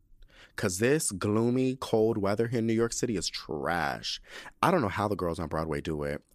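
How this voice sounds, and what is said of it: Hoarse voice from a cough. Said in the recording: “I hope these vocals hold up though ... this cough ... My voice is getting a little bit better”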